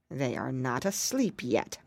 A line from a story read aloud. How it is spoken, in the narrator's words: muttered the witch to herself